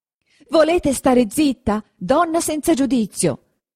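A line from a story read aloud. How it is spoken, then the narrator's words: Shouted into ear. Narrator (Italian): le gridò in un orecchio don Abbondio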